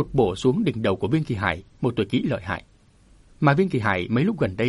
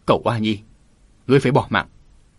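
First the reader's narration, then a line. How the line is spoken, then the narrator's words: Angry shout. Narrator (Vietnamese): quát lên giận dữ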